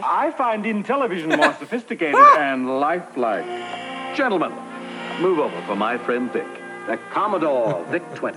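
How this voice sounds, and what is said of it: Impression of George Plimpton. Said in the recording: “there's a parody of George Plimpton. It's a very good impression.”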